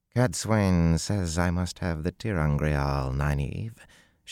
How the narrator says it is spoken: she said in the soft Seanchan drawl

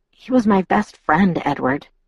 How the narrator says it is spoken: I muttered

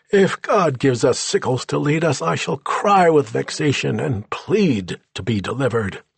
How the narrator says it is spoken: pious General Oliver Howard wailed

